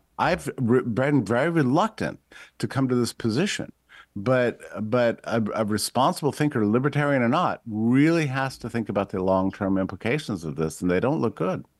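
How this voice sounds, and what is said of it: Patrician accent. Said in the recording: “your patrician accent”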